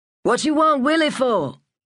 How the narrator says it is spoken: called out

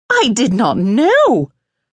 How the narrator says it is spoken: the Memsahib cried

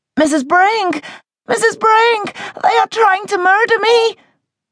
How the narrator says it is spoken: Madeline cried out, clear as anything

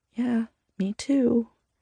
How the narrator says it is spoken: Sierra says softly

